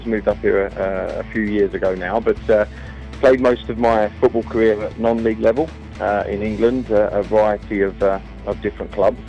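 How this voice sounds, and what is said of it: Non-Welsh accent. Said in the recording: “as you can probably tell from my voice, I don't originate from Wales”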